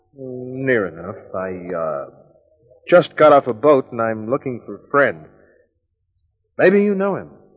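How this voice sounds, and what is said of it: Noticeable non-local accent. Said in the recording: “Not with that accent.”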